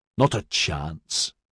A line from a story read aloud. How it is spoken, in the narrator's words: Maxon said in a disgusted tone